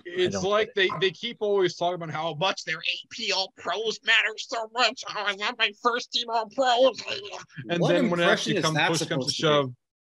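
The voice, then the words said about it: Imitates another person's voice, crazy. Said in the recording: “That was Ron Borges. ... It sounded like Tommy Boy that, when he gets all crazy. ... Is that a plagiarism impression?”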